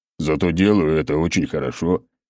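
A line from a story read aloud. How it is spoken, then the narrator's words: Big man chuckling. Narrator (Russian): хохотнул здоровяк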